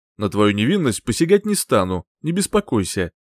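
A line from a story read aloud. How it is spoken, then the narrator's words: With a guffaw. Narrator (Russian): Хохотнув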